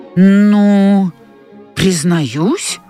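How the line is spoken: Reluctant grumble. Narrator (Russian): неохотно буркнул Илья

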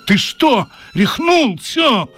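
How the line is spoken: Shouting. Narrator (Russian): закричал

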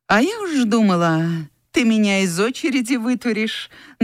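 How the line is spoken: Mocking. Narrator (Russian): насмешливо сказала Анфиса

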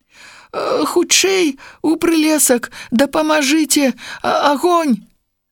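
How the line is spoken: Wolf cub shouting. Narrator (Belarusian): закрычаў ваўчок

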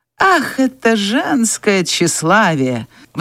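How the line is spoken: Sighing. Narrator (Russian): вздохнул Ред Батлер

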